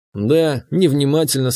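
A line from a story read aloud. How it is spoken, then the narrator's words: Plain. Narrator (Russian): сказал я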